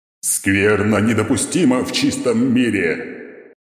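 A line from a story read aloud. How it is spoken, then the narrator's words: Roaring knight. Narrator (Russian): проревел рыцарь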